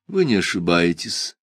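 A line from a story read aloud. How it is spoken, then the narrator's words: Dry confirmation. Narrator (Russian): сухо подтвердил комендант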